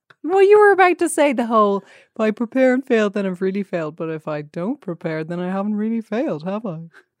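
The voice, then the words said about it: Imitates another person's voice. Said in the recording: “a me voice ... my general guy impression voice ... a great Brian”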